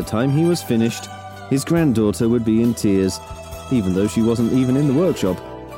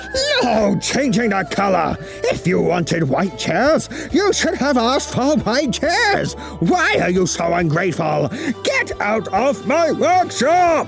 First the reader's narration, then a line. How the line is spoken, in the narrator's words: he would roar